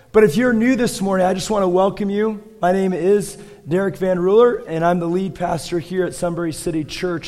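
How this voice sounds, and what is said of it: Hoarse, failing voice. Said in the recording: “my voice is going out”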